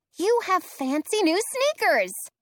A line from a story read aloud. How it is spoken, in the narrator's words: exclaim